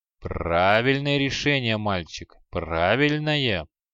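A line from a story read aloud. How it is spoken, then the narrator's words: Sarcastic, grinning. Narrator (Russian): язвительно осклабился эг-мумия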